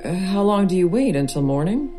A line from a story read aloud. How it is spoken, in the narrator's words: He laughs